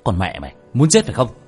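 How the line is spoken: Teeth-gritted furious shout. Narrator (Vietnamese): Tiểu Thất nghiến răng nghiến lợi quát lên

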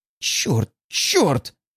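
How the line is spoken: Furious hiss. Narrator (Russian): прошипел я в бешенстве от собственной слабости

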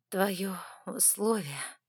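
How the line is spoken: Hoarse, strained. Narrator (Russian): хрипло выдавила я

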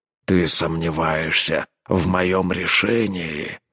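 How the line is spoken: Growled. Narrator (Russian): прорычал Рорк

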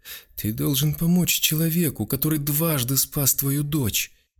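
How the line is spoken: Sobbing. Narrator (Russian): Та всхлипнула и добавила

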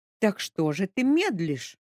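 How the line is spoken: Exclamation. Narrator (Russian): воскликнула Капитолина Андреевна

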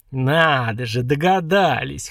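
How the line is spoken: Chuckling. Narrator (Russian): хохотнул новоявленный Дварх

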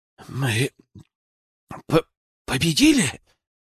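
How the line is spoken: Hoarse question. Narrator (Russian): охрипшим голосом спросил он

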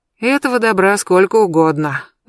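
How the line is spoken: Sigh. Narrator (Russian): вздохнула я

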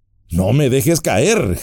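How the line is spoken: Panting, reviving. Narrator (Spanish): jadeé, pues sentía que me volvía la vida

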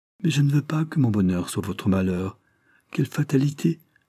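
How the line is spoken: Hesitant, uncertain voice. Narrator (French): ajouta-t-elle d'une voix indécise

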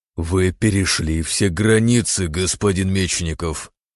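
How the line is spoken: Growl. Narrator (Russian): прорычал Лазарев

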